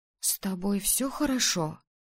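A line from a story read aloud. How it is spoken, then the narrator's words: Whispering. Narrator (Russian): прошептала Мария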